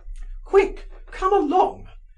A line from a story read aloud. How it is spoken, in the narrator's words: she cried, breathless with agitation and impatience